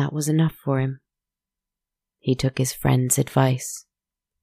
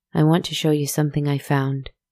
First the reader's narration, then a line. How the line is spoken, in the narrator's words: his friend said